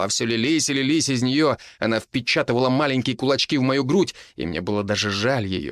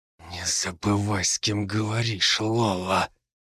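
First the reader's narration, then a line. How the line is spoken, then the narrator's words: Whisper. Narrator (Russian): прошептал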